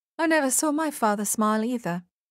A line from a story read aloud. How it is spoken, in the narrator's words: she said